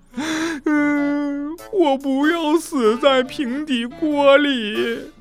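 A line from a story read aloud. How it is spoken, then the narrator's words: Wailing sobs. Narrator (Chinese): 小刺儿头嚎啕大哭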